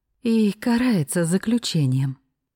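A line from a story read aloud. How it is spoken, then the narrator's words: Moaning. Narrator (Russian): простонала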